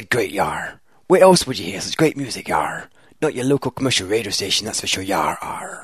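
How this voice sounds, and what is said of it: Pirate voice drifting into bad Scottish. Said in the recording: “That just became your Michael Myers Shrek impression by the end of that as well ... a very bad Scottish accent, like me.”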